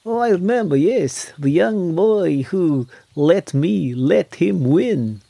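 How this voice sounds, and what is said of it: Attempted Maltese accent. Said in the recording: “That's about as close to a fucking Maltese accent I'm going to get.”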